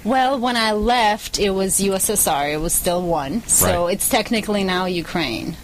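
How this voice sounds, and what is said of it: Russian accent. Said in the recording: “your accent is from where? ... Russia.”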